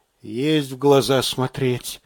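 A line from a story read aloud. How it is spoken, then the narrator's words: Near whisper. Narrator (Russian): тоже почти шепотом отозвался сержант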